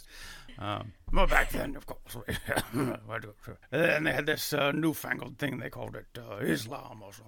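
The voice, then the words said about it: Crotchety old British man voice. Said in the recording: “I can do crotchety, old, crusty British man sitting in a club complaining”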